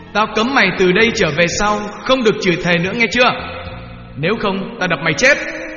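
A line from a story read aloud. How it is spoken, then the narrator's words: Swearing, shouting. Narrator (Vietnamese): Ông bố chửi thề và quát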